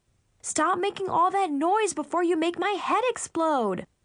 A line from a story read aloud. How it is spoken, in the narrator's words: I yelled